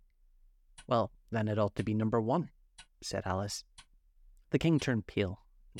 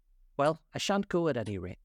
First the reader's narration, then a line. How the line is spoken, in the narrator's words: said Alice